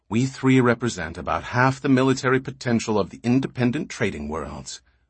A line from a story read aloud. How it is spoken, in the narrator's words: Randu said quickly